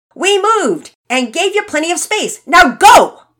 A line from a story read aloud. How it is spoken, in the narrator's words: Finn, still slightly irritated, shouted back